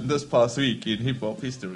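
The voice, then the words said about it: Loud radio announcer voice. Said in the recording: “Radio voice ... There's a certain way to say this ... Louder ... This is radio”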